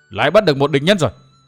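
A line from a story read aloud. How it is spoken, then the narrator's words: Calling out. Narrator (Vietnamese): có người kêu lên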